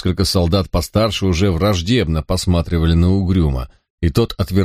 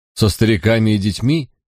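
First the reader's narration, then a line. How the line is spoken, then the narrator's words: Skeptical snort. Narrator (Russian): хмыкнул Стивен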